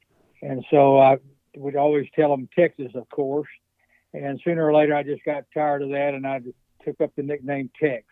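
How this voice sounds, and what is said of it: Texan Southern US accent. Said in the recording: “it's probably because of my accent. ... as soon as I'd open my mouth, they'd ask me what part of the Bible Belt I was from”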